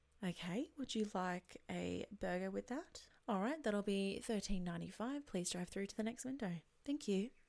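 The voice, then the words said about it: Put-on customer service voice. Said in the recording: “Next is the customer service voice. ... I cannot stand customer service voice. Please use your normal voices. It's so transparent. ... Please turn off the voice.”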